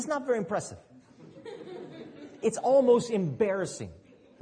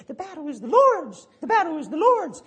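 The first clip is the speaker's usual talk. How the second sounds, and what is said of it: Squeaky teenage voice. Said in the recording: “He's got that teenage squeaky voice ... with a little squeaky voice.”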